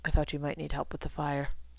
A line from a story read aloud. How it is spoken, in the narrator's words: he said in an undertone